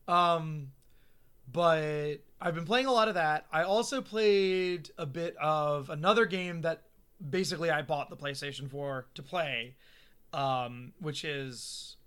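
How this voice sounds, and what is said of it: Hoarse, strained voice. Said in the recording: “I'm losing my voice. I was losing it last week, too.”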